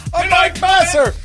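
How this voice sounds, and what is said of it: Screaming from a distance. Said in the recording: “We can hear you ... Just keep screaming.”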